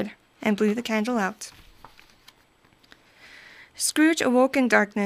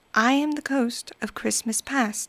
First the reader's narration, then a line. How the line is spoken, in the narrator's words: said in a gentle voice